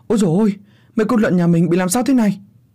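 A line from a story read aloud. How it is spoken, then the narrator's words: Distant panicked shout. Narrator (Vietnamese): tiếng bố tôi ở ngoài chuồng lợn hốt hoảng la lên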